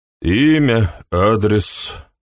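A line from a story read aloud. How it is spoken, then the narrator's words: Grumbled. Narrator (Russian): пробурчал инспектор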